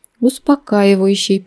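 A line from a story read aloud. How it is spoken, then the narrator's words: Reading aloud, sighing. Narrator (Russian): прочитала я вслух и вздохнула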